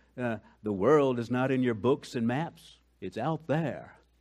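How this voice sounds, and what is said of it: Poor impression of Gandalf's voice. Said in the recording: “That was a terrible impersonation of Gandalf.”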